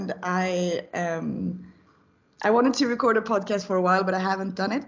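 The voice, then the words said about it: Slightly strained, sore-throat voice. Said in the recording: “my throat is hurting a little bit, so my voice is a little bit like this”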